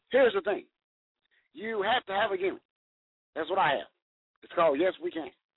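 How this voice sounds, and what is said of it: Impression of the President. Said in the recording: “the Celebrity Impersonator ... my impersonations ... I was about to say, "Damn, Mr. President, what's good?"”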